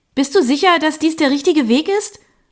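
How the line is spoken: Calling out. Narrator (German): rief ich

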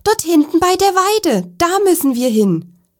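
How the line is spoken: Man calling out. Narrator (German): rief er

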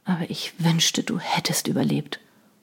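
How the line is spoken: Remorseful mumble. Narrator (German): murmelte er zerknirscht

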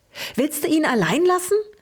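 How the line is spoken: Excited squeak. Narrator (German): fiebte Luke aufgeregt, der als erster seine Sprache wiedergefunden hatte

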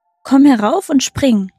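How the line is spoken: Calling out. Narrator (German): rief sie

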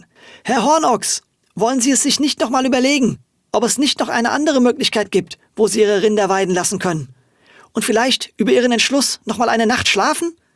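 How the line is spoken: Panicked call. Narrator (German): Von einer Panik ergriffen, dass jetzt alles zu spät war, rief Frau Wölkchen

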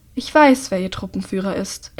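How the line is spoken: Calm reply. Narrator (German): entgegnet der Mann ruhig

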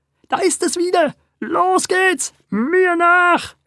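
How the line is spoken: Shout. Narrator (German): schrie er

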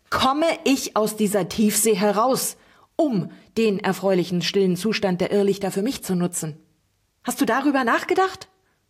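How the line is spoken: Shouted into ear. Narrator (German): schrie Uliana dem Bänderog direkt ins Ohr

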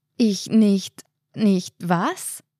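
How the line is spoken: Stammering. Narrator (German): stammelte Martin

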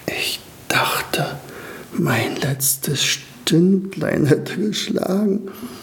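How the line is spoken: Whispered. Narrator (German): flüsterte Staubi

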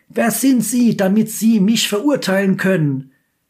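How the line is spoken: Very loud shout. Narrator (German): Der Franzose schreit dann ganz laut

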